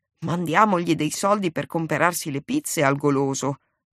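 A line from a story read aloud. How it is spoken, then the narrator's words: Grumbling. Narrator (Italian): brontolava padron Toni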